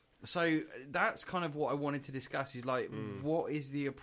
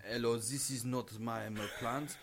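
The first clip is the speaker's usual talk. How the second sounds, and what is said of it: Put-on foreign accent. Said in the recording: “Can you not put us in an accent”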